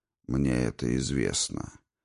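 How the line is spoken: Even-voiced wizard's reply. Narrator (Russian): ровным голосом ответил чародей

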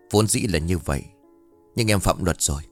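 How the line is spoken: Cold reply. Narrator (Vietnamese): lạnh lùng đáp

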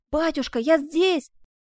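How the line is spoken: About to shout. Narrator (Russian): Коломба готова была крикнуть

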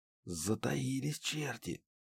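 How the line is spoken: Whispered. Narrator (Russian): шепнул Муха

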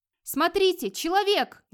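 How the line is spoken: Warriors shouting together. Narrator (Russian): закричали разом несколько воинов

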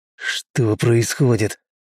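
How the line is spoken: Angry hiss. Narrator (Russian): зло прошипел Михеев

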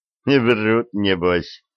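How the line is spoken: Snorting. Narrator (Russian): хмыкнул Арчибальд

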